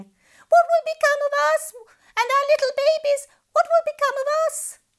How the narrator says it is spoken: The poor fish panicked wailing

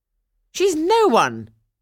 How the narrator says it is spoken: cried the stepmother

